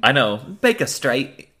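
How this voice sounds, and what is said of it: Bad put-on English accent. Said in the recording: “my terrible English accent there”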